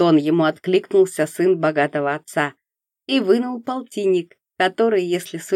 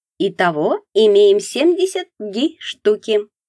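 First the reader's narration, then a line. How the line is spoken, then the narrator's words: Cheerful counting. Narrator (Russian): бодро сосчитал Мякшев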